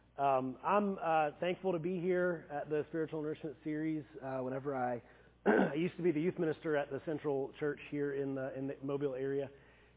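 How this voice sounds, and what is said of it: Weak voice. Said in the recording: “I just got over the flu on Sunday, so my voice is a little weak.”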